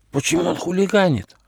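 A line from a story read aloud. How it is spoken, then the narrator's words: Whispered question. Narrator (Russian): шепотом спросил Почемучка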